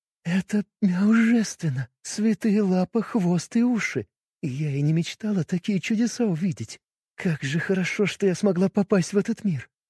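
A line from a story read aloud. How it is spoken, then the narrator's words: Whispered. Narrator (Russian): прошептала Миори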